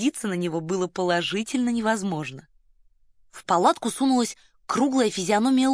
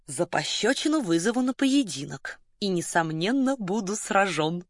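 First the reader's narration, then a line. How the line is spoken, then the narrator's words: Purring. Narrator (Russian): тараща глаза промурлыкал граф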